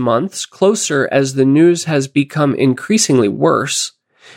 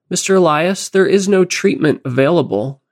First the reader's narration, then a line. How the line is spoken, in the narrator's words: she says